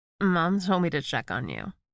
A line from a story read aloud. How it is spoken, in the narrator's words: she slurred